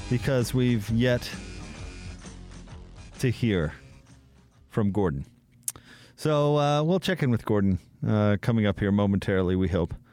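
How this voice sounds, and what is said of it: Deliberately very slow speech. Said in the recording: “I'm talking very slowly.”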